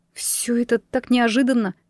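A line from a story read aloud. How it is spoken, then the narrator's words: Mumbling. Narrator (Russian): пробормотала я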